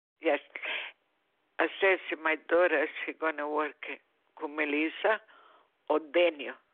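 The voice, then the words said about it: Strong Italian accent. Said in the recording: “You have a very strong accent... I'm Italian, that's right... I love your accent”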